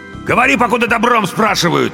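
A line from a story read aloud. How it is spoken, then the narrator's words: Barked. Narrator (Russian): рявкнул второй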